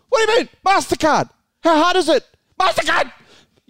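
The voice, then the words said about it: Mocking impersonation of co-host. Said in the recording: “I'll do an impersonation.”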